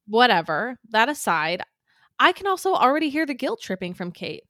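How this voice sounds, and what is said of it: Usual voice. Nothing is said of it.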